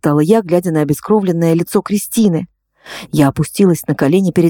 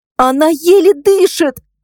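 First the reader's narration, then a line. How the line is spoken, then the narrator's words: Shouting. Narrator (Russian): крикнула я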